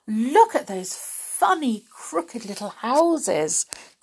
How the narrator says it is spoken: cried Molly in delight

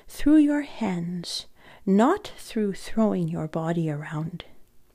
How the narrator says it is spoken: he said gently

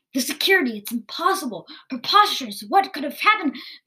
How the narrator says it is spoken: Vildar began to yell

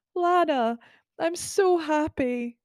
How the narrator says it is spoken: whimpered in a cute, tiny voice

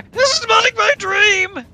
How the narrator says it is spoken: Somebody screams

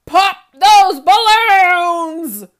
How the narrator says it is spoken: the Archduke shouted

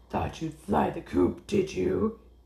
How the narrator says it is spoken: He barked

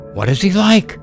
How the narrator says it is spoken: cried her fiancé

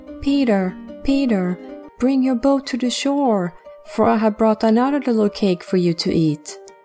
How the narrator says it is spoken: called in her little new voice

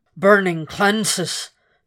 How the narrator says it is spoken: the dragon growled

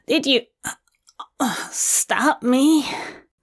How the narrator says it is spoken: He groans

